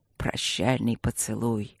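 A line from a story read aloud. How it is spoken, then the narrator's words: Listless mutter. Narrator (Russian): пробормотал Люк вяло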